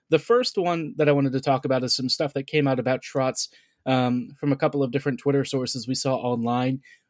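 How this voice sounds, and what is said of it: Scratchy, rough voice. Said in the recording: “if my voice sounds a little bit scratchy, allergies have been killing me ... My throat earlier was pretty rough”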